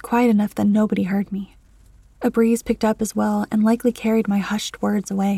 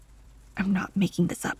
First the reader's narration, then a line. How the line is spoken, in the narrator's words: I said under a muttered breath